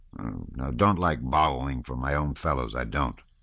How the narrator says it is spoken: growled Denisov

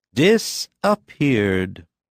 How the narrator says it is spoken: said Lujin obediently, and with a sigh

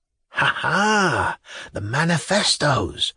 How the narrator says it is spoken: was whispered in the audience

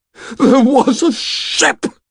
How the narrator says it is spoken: One of the smaller hunters began to wail

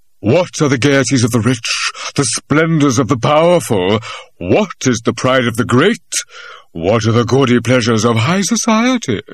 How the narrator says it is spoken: The voice, which had risen in tone questioningly from sentence to sentence, dropped suddenly and boomed reply

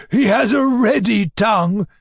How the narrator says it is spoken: cried the fat man, rolling with laughter

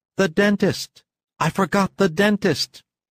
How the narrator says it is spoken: exclaimed

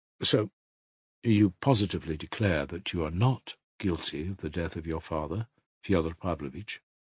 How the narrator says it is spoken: asked the investigating lawyer, softly but insistently

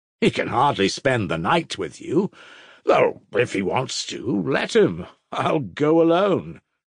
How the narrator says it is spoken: Rakitin scoffed jeeringly

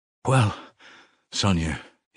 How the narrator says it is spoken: he said, and felt that his voice was trembling

